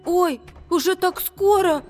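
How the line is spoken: Anxious squeak. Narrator (Russian): тревожно пискнул Макси

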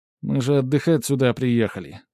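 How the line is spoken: Displeased grumble. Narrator (Russian): буркнула недовольным тоном

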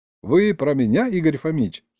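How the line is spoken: Giggle. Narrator (Russian): хихикнул Серега

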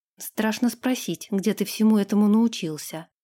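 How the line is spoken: Muttering. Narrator (Russian): пробормотала Ирга

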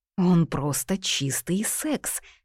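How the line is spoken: Whisper. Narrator (Russian): прошептала

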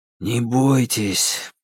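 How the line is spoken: Whisper. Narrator (Russian): прошептал он в светлую макушку

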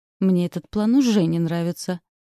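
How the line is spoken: Skeptical snort. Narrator (Russian): хмыкнул Фрэнсис

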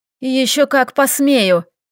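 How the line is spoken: Growling. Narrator (Russian): прорычала Лилия

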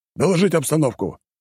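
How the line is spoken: Barked into radio. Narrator (Russian): рявкнул Аид Иннокентьевичу рацию

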